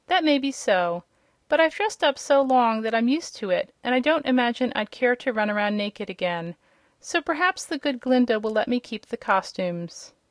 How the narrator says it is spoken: he faltered

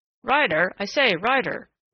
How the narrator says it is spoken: said a hurried voice, Thatcher's voice, in perturbed urgency

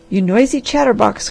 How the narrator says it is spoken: cried the man

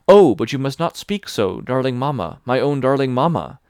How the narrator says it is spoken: I exclaim, and tears of joy and love fall from my eyes

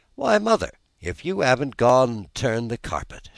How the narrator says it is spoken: she exclaimed, with something in her voice that spoke awe and admiration

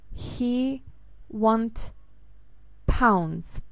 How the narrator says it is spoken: one said very slowly

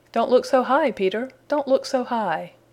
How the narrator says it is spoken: said the voice with a chuckle

